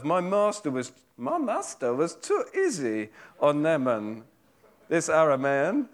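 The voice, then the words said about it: Odd meerkat-like put-on accent. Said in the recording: “I don't know what accent that is, but it's something... sounds like a meerkat, yes. Compare the meerkats, yeah.”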